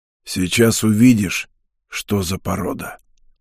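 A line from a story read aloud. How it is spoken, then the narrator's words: Hoarse voice. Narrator (Russian): произнес хриплый голос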